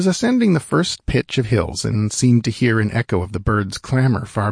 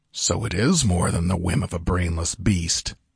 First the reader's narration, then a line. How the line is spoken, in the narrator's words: he muttered